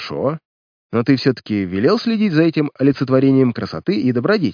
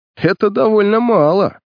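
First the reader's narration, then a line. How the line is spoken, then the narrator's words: Laughing. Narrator (Russian): засмеялся Ник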